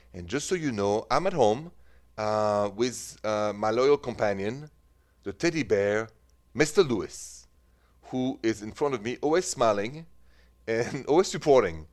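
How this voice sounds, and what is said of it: French accent. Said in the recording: “The accent is French.”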